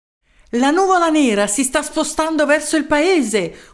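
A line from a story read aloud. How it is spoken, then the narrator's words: Young man yelling at full lungs. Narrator (Italian): urlò con quanto fiato aveva in gola un giovane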